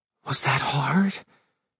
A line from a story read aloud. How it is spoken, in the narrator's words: she whispered